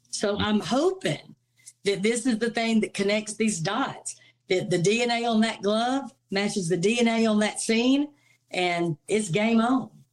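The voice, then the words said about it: Speaks with a distinctive accent. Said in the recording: “Man, I have missed that accent.”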